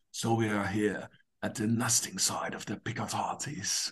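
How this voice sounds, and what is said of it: Ironic David Attenborough impression. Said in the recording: “you can see me impersonating, of course, a little bit ironic, Dave Attenborough”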